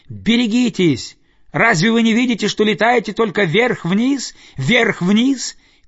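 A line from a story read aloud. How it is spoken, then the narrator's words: Shouted while flying past. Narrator (Russian): крикнул, проносясь мимо, какой-то нырок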